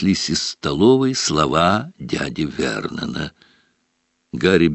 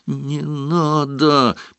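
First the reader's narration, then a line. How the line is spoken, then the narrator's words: Moaned. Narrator (Russian): простонал Гарри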